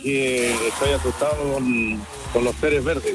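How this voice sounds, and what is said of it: Deep radio announcer voice. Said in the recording (Spanish): “tiene voz de locutor el amigo! Tiene voz de locutor.”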